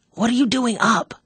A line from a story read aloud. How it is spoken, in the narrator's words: Joe whispered back fiercely